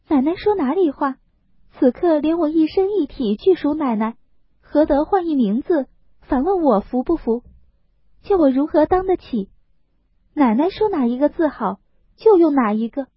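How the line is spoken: Hasty, laughing. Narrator (Chinese): 香菱忙笑道

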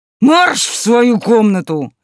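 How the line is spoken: Bark. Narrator (Russian): рявкнул

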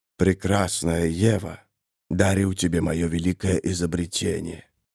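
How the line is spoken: Sinister whisper. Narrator (Russian): прошептала сатанинская фигура

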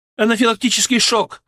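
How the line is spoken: Alarmed shout. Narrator (Russian): закричала Зиновьева

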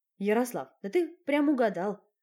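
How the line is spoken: Snorting. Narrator (Russian): хмыкнул Коля

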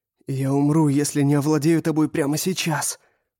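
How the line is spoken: Hoarse, passionate rasp. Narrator (Russian): прохрипел я, сгорая от страсти

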